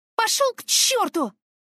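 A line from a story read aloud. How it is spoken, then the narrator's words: Yelling. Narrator (Russian): заорала я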